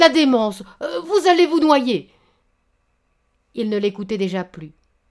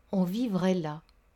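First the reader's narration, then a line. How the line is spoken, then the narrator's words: Murmured. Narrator (French): murmura-t-elle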